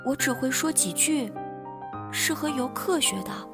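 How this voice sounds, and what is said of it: Quiet, soft-spoken little girl. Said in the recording (Chinese): “小女孩小声的用英文说”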